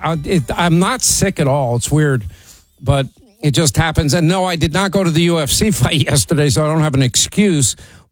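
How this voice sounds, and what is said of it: Sore, slightly strained voice. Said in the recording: “Hang on, a lozenger. Yeah, my voice is a little sore.”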